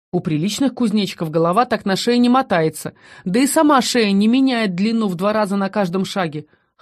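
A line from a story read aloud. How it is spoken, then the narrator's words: Skeptical snort. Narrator (Russian): хмыкнул Шон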